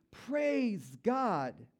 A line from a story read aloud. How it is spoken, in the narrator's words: shouting